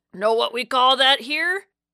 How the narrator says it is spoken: The red-headed cabbie wheezed a throaty smoker's laugh and said

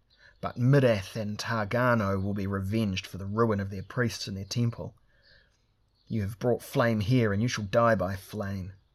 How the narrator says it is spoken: he spat

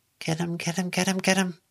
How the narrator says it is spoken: Lucy whispered

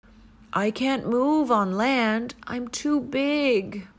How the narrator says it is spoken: moaned the whale

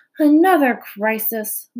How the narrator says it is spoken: groaned Fern

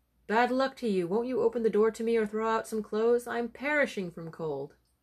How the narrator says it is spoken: he called out

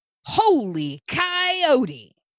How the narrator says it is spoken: Zan yelled

